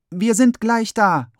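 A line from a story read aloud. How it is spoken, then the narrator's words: Calling out. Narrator (German): ruft Freitag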